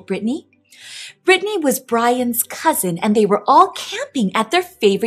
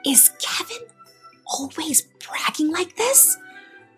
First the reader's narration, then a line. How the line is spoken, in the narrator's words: Brittany whispered to Brian